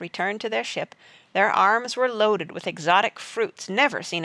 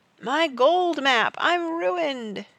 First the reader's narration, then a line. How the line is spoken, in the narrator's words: gave a final wail on the trumpet